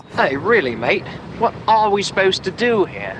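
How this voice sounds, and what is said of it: Bad Australian accent sounding British. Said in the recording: “real bad British accent ... that's a really bad British accent ... he's supposed to be Australian ... It is a very bad accent”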